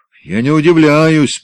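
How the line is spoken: Growled. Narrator (Russian): прорычал он

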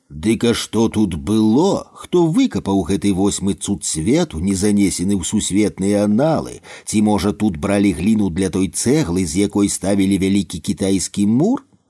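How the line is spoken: Joking tone, hidden curiosity. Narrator (Belarusian): За жартаўлівым тонам Антон спрабаваў схаваць неўтаймоўную цікаўнасць, якая разбірала яго

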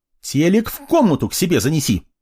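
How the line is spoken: Barking. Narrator (Russian): рявкнула

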